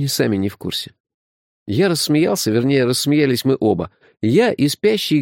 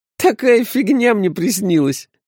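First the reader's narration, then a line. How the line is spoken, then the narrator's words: Laughing speech. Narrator (Russian): сквозь смех сказал он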